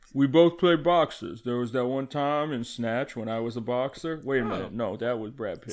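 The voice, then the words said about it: Sylvester Stallone impression. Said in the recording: “Oh, Sly Stallone, when did you get here? ... That's a crazy accent you got there, Sly.”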